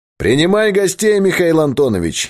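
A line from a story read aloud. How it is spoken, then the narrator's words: Cheerful distant shout. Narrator (Russian): весело крикнул Богдан из коридора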